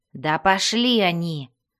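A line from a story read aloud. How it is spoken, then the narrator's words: Angry growl. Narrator (Russian): зарычал Бреннер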